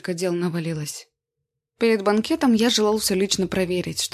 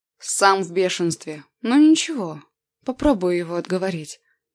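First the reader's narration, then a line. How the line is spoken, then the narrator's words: Tired voice. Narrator (Russian): ответил усталым голосом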